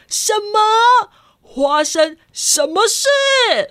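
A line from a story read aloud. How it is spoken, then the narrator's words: Startled, loud. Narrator (Chinese): 花生爸爸 真的吓一大跳，大声的说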